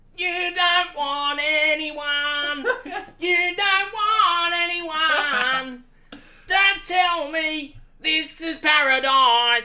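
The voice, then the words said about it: Abrasive Australian accent, singing loudly. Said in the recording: “singing at the top of his lungs ... in the most abrasive Australian accent”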